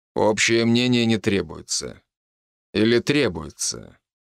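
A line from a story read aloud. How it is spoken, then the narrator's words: Calm, as usual. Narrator (Russian): Совет говорил с ней спокойно, как обычно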